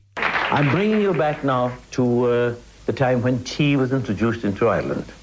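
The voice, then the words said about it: Irish Kerry accent. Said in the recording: “Is it a Kerry accent?”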